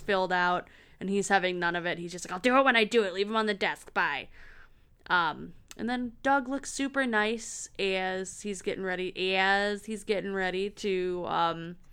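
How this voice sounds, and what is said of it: Michigan accent. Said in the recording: “that was some Michigan accent there, and I apologize, listeners”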